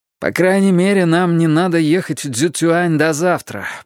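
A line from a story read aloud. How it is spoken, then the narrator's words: Groaning. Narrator (Russian): простонал Венкат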